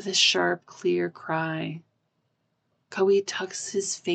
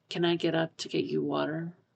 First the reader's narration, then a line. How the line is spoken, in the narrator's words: Pisang murmurs